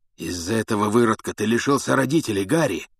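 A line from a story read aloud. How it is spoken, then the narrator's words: Hoarse rasp. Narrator (Russian): прохрипел Блэк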